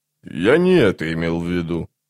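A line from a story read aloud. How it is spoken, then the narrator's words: Grumbled. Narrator (Russian): проворчал он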